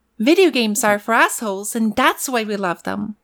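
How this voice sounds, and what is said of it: Character voice with a twang. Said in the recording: “I just get in the character ... I'm doing my voice ... the twang, you know, the whole flow of that word”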